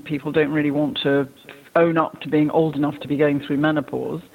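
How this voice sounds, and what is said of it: English accent. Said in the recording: “as you can hear from my accent, I'm from England.”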